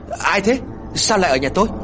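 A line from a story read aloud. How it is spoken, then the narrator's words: Loud shout. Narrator (Vietnamese): Cô liền hét lớn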